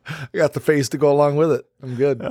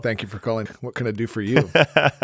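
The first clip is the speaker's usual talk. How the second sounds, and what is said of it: Deep smooth sexy radio voice. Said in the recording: “he's got the sexy voice on today ... That is a voice for radio right there.”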